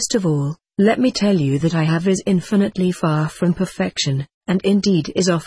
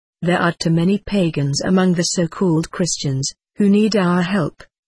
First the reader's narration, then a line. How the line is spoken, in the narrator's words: she said